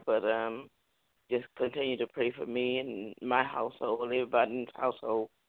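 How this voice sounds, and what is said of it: Voice slightly off, like a cold. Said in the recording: “As you can hear, my voice is kind of still a little off from whether it was an allergy, cold, or whatever.”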